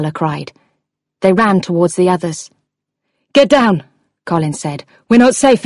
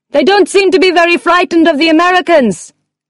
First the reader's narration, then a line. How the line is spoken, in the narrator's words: Carla shouted